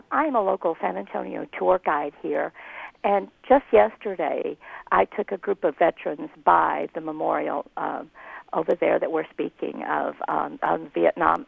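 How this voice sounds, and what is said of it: Hoarse, strained voice. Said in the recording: “Excuse my laryngitis.”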